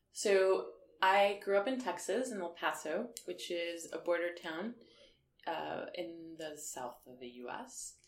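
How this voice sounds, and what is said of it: Slight accent. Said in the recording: “has a bit of an accent”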